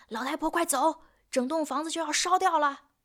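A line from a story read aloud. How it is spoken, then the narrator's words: Rough shout. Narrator (Chinese): 粗暴的喊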